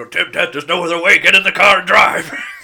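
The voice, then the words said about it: Doc Brown impression. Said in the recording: “That's my Doc Brown impression.”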